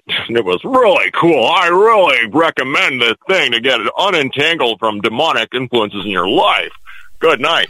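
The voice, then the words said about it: Imitates another person's voice. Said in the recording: “Was it a good impression? ... It's better on the phone, right?”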